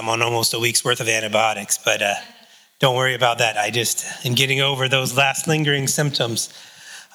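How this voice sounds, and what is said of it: Slightly raspy, hoarse voice. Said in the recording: “my voice is a little raspy ... a little bit of cough here and there”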